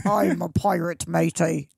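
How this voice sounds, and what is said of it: Pirate voice. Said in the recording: “What's a pirate sound like? ... Yeah, not bad. ... I'm a pretty bad pirate.”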